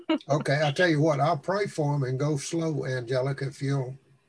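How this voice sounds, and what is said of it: Strong accent. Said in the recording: “él habla con mucho acento ... His accent, yeah.”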